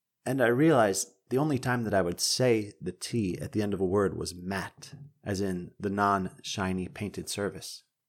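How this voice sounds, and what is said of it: Eastern U.S. accent, dropped final T's. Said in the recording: “They say the T's at the end of their words. It's something specific to the Eastern U.S. ... covering for a part of my accent”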